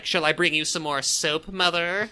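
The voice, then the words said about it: Imitates a character's voice. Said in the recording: “That was a really good impression.”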